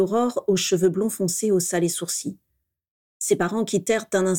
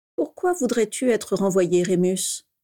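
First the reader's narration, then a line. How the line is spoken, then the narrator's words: Calm question. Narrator (French): demanda calmement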